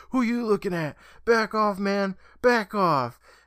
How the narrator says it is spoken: Kevin, who yells

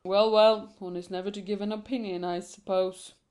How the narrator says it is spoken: grumbled the portrait

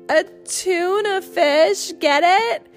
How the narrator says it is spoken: She said, doubling over with laughter

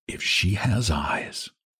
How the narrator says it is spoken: Val murmured to himself

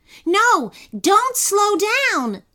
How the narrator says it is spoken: yelled Kenny

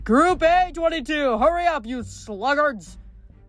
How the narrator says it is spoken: A dozen Cyclops shouting excitedly

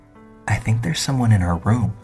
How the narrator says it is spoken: Very softly I heard Tim say

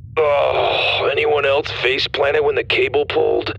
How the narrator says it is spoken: Dallas groaned

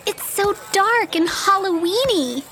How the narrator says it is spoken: Rosita squealed happily

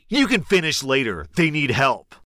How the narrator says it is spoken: He looked shocked and responded angrily

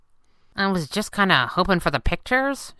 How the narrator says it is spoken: she mumbled

